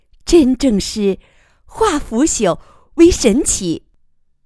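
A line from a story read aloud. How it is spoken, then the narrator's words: Sincere admiration. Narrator (Chinese): 余乐水衷心赞叹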